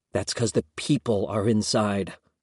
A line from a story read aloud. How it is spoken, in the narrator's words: Alex whispered back